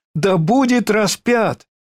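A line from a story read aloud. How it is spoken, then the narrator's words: Crowd shouting louder. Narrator (Russian): Но они еще сильнее кричали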